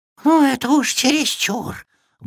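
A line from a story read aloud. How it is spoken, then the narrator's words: Indignant wheezing. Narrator (Russian): возмущенно засипел он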